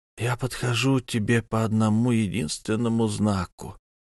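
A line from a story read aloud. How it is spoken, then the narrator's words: Breathless, blood-choked. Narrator (Russian): выдохнул Ди с кровью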